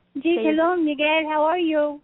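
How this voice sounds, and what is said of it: Speaks with a noticeable accent. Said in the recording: “That accent is”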